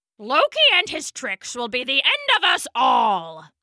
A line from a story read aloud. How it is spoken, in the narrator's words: spat